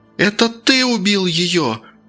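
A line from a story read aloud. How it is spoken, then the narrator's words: Sudden shout. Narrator (Russian): вдруг закричала она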